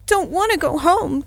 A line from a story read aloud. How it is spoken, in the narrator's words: came the heartbroken wail